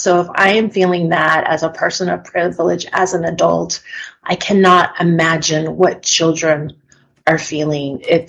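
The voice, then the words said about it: Emotional, shaky voice. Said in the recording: “you can tell I'm a little emotional”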